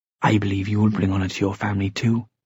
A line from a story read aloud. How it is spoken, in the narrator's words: Cecily said quietly